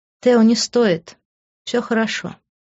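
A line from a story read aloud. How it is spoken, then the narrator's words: Calm. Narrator (Russian): спокойно произнесла я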